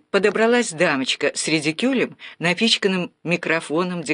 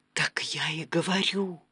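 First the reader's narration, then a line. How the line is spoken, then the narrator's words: Whisper. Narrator (Russian): шептал Станислав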